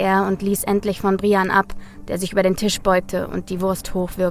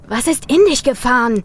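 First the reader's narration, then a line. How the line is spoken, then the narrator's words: Called out. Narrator (German): rief Tim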